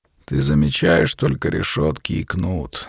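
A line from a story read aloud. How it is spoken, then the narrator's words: Low voice. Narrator (Russian): заговорил Петр вполголоса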